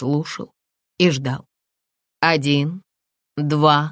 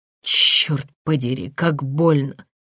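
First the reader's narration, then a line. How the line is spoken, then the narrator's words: Groaning in pain. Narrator (Russian): Я застонал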